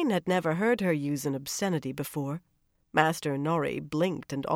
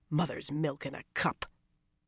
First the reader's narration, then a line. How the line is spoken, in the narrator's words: was under no compunctions regarding the First Maid, and she muttered